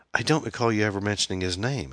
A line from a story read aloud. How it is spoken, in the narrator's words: Anne said